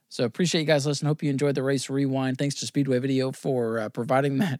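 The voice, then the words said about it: Weak, hoarse voice from a cough. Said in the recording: “thanks for putting up with my voice ... I get a cough that becomes persistent ... this post-nasal drip crap ... Hopefully by next week, my voice is a little bit stronger”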